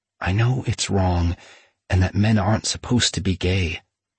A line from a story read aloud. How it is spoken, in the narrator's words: Aaron whispered